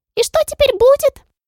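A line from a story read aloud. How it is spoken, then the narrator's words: Squeaky. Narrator (Russian): пискнула Моль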